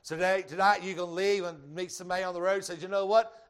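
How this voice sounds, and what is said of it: Southern US Georgia accent. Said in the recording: “My Georgia accent, my rednecks just don't allow me to say it.”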